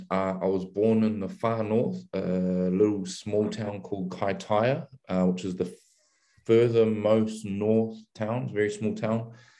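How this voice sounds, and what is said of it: New Zealand accent. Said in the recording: “a bit of an accent there ... I grew up in New Zealand”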